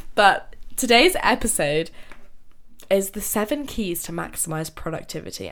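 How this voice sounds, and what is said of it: Nasal, congested voice. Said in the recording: “I am still ill... my voice is a bit different. I sound a bit more nasally, and that's just because I'm ill.”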